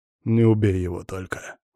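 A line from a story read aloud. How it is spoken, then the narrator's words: Hoarse smirking voice. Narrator (Russian): усмехнулся я сипло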